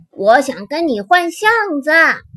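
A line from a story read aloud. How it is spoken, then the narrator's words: Calling from outside. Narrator (Chinese): 花栗鼠，蓝狐狸在门外叫着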